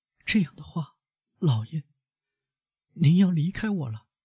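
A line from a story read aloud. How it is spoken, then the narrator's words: Hoarse, tearful pleading. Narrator (Chinese): 海底变得脸色煞白，就像祈求上帝保护的处女那样，用哭泣的暗哑声音说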